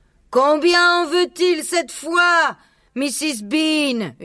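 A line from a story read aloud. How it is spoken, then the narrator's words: Shouted by a woman. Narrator (French): hurla la femme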